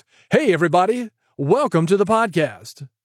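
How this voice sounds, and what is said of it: Exaggerated radio DJ voice. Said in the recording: “I don't sound like a DJ. ... They have that DJ voice, that throw up voice.”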